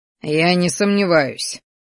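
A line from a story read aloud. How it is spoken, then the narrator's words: Snorting. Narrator (Russian): хмыкнул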